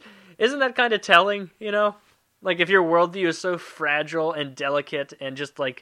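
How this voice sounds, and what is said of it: Usual voice. Nothing is said of it.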